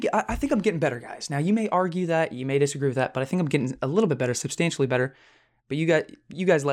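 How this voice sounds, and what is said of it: Usual voice. Nothing is said of it.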